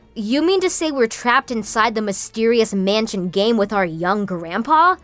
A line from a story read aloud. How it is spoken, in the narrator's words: Noah said